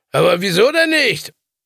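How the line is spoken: Shouting over engine noise. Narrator (German): rief ihm Le Père über das Knattern des Motors zu

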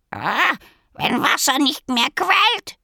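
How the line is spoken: Croaking. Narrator (German): krächzte er

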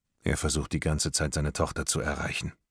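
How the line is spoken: Quiet. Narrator (German): sagt Morton leise

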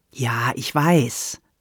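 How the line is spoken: Earnest reply. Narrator (German): antwortete Sandra ernsthaft

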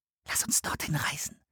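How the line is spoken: Whisper. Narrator (German): flüsterte Anne

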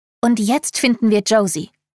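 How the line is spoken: Unusually loud. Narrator (German): erklärt ungewohnt laut

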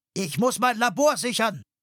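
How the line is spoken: Shouted. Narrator (German): schrie Henry ihnen zu

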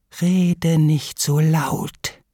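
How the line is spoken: Lame duck hissing. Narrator (German): zischt die lahme Ente

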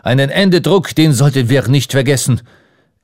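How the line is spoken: Called out. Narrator (German): rief Ardon

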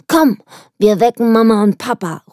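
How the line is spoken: Calling out. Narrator (German): ruft sie

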